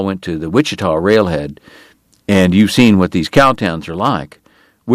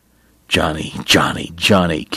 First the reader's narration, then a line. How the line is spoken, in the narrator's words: Kate muttered